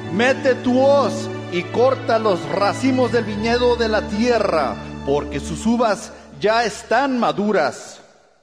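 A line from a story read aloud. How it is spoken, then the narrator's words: Angel shouting. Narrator (Spanish): otro ángel que tenía autoridad sobre el fuego y le gritó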